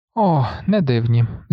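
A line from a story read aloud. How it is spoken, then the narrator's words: Sighing, sinking dread. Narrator (Ukrainian): зітхнув Грегор, відчуваючи, як у животі в нього щось раптом ніби опустилося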